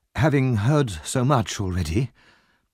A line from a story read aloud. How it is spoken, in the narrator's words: she murmured